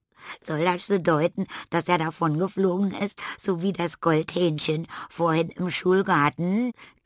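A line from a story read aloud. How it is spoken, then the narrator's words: Giggling. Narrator (German): kicherte Ada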